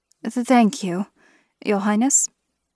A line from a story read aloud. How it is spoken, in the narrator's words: I stammered